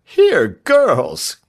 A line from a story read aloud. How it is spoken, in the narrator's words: cried the doctor